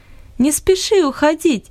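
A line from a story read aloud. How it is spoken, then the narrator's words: Laughing. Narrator (Russian): засмеялась Луис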